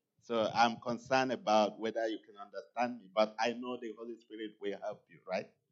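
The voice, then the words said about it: Nigerian English accent. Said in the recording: “my accent is combined with British English and then Nigerian native language”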